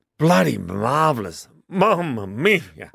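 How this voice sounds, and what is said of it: Put-on Italian accent. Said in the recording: “How's your Italian accent? ... Oh, stop, don't, please.”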